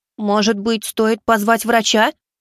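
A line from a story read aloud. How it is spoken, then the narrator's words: Anxious babble. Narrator (Russian): взволнованно пролепетала Кицуне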